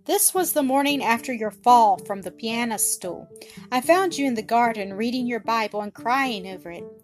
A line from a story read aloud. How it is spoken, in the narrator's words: he said